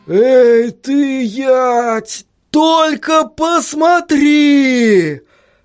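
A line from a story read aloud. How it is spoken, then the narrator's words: Exclamation. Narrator (Russian): воскликнул постоянно происходящий тюльпан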